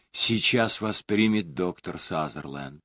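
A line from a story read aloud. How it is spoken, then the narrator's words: Quiet announcement. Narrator (Russian): Вера тихо объявила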